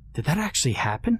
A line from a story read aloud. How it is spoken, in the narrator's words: She muttered